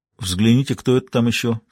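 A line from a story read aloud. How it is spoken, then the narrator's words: Quiet suggestion. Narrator (Russian): тихо предложил он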